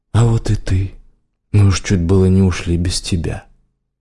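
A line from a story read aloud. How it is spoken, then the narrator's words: Warm. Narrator (Russian): сказал теплым голосом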